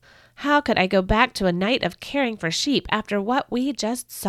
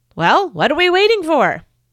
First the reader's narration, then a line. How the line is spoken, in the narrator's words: Breaking the silence, my dad blurted out